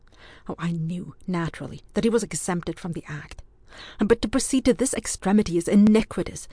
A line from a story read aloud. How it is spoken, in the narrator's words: said Ewan hotly